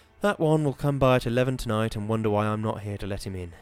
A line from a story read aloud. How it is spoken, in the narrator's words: sighed